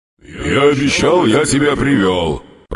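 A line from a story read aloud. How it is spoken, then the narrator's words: Grumbling demon. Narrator (Russian): проворчал на это демон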